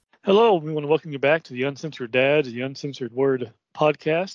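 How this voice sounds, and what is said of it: Voice sounds sick. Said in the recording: “some because of sickness. You may be able to hear it in my voice”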